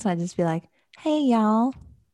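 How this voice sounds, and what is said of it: Fake Southern accent. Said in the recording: “I'd be there doing like fake Southern accents”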